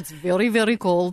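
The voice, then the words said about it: Put-on Russian accent. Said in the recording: “they're doing the Russian accent.”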